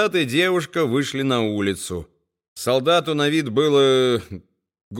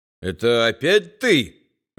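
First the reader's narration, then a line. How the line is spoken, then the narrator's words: Irritated grumble. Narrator (Russian): раздраженно буркнул солдат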